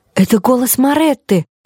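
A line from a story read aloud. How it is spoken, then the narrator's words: Exclaimed. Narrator (Russian): воскликнула Лорелея Рубинштейн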